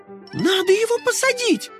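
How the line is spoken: Terrified scream. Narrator (Russian): в ужасе закричала Карамелька

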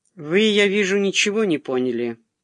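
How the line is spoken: Dry remark. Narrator (Russian): сухо заметил

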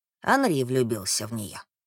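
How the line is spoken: Quiet. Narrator (Russian): сказал он тихо

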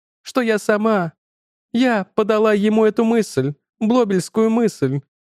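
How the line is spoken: Sobbing again. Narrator (Russian): снова всхлипнула Вивьен

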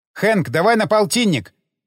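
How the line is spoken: Shouted while running. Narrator (Russian): крикнул я еще на бегу

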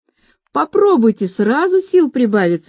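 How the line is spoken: Cheerful. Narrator (Russian): весело сказала

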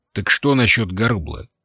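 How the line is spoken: Sharp question. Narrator (Russian): резко спросил Лафаэт

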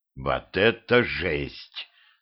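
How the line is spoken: Devil grumbling. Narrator (Russian): проворчал дьявол

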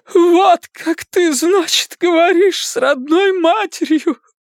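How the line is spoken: Spoken through sobs. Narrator (Russian): вымолвила она сквозь рыдание

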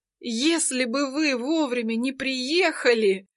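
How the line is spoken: Sobbing. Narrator (Russian): всхлипывает Амалия

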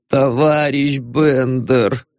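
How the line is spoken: Muttering. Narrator (Russian): пробормотал предводитель

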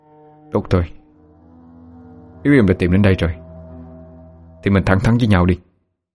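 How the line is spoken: Cold. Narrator (Vietnamese): Long lạnh lùng nói

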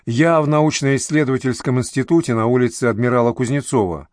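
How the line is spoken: Quick speech. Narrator (Russian): быстро произнесла Зорина

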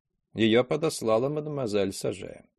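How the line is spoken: Dry remark. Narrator (Russian): Красавица Лиза сухо заметила

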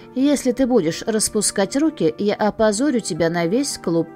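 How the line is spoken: Quiet. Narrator (Russian): Настя негромко сказала

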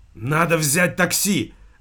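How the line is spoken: Hoarse exclamation. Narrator (Russian): Опять хрипло воскликнул он

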